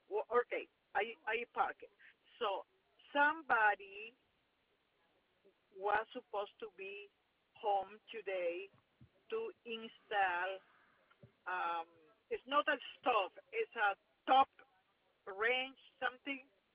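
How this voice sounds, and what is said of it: Speaks with an accent. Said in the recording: “I have an accent”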